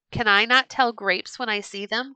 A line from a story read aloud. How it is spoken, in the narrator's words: cried Turker